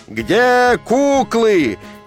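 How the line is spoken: Roaring crowd. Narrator (Russian): людская масса взревела, как пожарная машина

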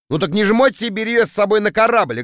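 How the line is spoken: Snapping retort. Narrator (Russian): огрызнулся я

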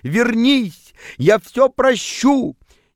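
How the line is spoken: Pleading shout. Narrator (Russian): приполз к вам на коленях и кричал

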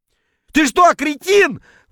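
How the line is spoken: Yelling while spluttering. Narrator (Russian): вопил, шумно отплевываясь

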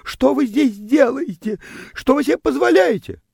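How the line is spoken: Startled, indignant girl shrieking. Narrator (Russian): Девочка взвизгивала от неожиданности и возмущенно вопрошала

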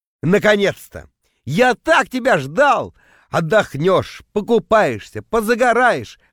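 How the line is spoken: Hypocritical yelling reply. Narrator (Russian): в ответ орал я, превращаясь в лицемерного монстра

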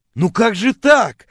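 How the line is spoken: Offended wailing. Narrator (Russian): обиженно вопил я

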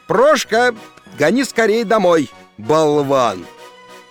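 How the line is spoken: Shouted. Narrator (Russian): крикнул

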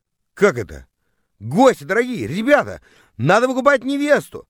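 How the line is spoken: Yelling to guests. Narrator (Russian): завопил я, обращаясь к гостям

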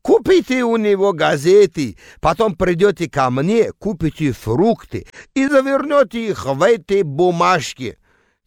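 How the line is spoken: Shouted by vendor. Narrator (Russian): азербайджанец и кричал

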